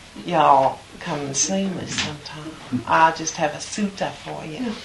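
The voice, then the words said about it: Put-on American Southern accent. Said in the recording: “Pali is like a southern accent almost”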